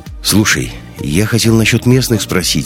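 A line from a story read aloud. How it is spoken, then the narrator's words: Plain. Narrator (Russian): сказал Ник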